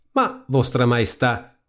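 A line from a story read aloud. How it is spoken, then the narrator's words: Plain. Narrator (Italian): rispose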